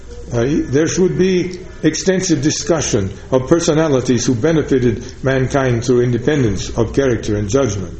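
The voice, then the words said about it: Put-on Russian accent quoting Einstein. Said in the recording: “forgive the Russian accent”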